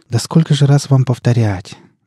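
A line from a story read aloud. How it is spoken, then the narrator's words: Hopeless sigh. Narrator (Russian): безнадежно вздохнул Шульгин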